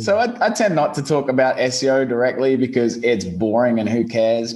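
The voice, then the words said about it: Australian accent. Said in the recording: “my little Aussie twang does get a bit hard sometimes ... Oh, Australian heartthrob ... Listen to that voice.”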